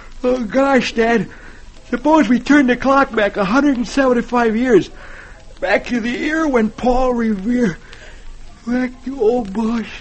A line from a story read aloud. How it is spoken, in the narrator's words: he yawns and says